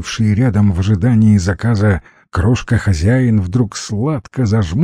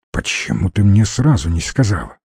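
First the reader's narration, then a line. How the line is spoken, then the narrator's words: Quiet question. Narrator (Russian): Стивен тихо спросил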